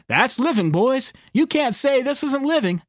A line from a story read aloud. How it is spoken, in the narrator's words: Neil's laughing and choking and saying